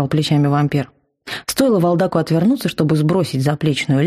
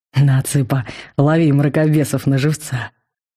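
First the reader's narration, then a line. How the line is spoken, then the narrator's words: Grim joke. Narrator (Russian): Мрачно пошутил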